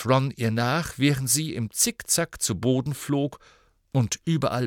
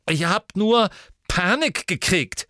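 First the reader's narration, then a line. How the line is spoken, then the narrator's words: Angry. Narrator (German): sagte Ginny wütend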